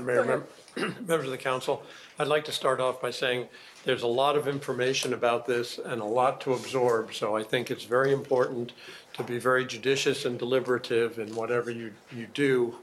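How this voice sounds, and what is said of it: Scratchy, slightly hoarse voice. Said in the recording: “my voice is a little scratchy”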